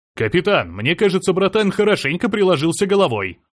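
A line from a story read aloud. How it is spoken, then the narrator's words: Loud laughing. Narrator (Russian): громко рассмеявшись, произнес Серж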